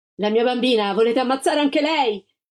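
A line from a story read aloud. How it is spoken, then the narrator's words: Shouting. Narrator (Italian): la Gilda gridò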